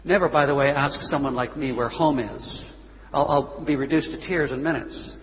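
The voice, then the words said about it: American-sounding accent. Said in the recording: “People hear my accent, they look at my passport, they say, ah, an American.”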